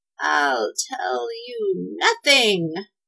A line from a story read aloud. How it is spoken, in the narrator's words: rasped the witch